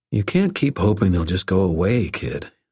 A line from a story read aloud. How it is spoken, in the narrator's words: I said